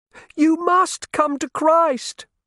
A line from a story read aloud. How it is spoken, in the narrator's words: he bawled at them